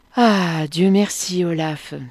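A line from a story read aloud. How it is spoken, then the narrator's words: Captain's relieved sigh. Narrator (French): soupira le capitaine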